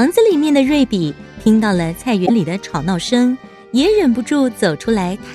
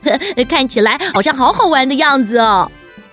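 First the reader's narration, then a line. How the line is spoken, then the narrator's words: Laughing. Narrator (Chinese): 罗宾当他看到小熊维尼和跳跳虎的很开心的样子，也忍不住笑着说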